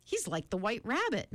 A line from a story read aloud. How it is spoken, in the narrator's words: Meg giggled nervously